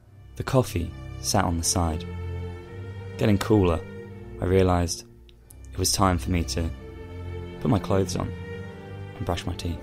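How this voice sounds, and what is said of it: Dramatic narrator voice. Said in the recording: “in your best narration voice”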